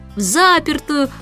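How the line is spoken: Loud shouting, two voices. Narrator (Russian): громко завопили Майкл и Джейн

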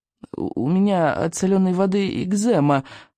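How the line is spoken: Mumbling. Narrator (Russian): промямлил рыбьенок

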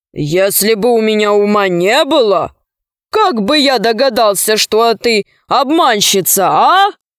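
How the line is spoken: Pleased laughing giant. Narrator (Russian): И богатырь захохотал, довольный своей сообразительностью

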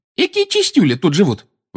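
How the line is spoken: Intrigued exclamation. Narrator (Russian): воскликнула Тонкс, которая оглядывала кухню с громадным интересом

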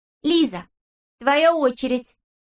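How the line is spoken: Shout. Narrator (Russian): крикнула Бритта

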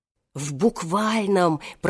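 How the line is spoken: Old man's whisper behind door. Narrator (Russian): прошептал за дверью старик Хоттабыч

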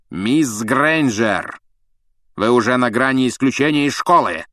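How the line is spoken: Barked. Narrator (Russian): рявкнул Снег

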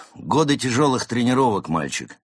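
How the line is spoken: Deep bass explanation. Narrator (Russian): объяснила Изольда прежним басом

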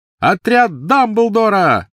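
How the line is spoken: Shouting. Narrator (Russian): выкрикнул он

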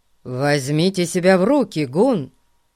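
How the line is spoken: Stern. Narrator (Russian): строго сказал ему инспектор

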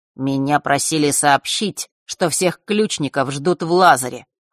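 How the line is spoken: Cold. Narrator (Russian): холодно произнес он

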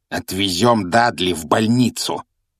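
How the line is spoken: Growled. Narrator (Russian): прорычал дядя Вернон

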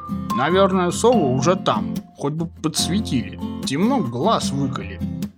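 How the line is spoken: Hedgehog muttering. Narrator (Russian): пробурчал ежик

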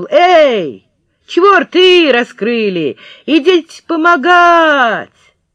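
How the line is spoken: Shouting through cupped hand. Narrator (Russian): приложил руку ко рту и крикнул

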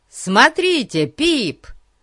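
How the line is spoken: Yelling. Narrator (Russian): Завопил Ларри

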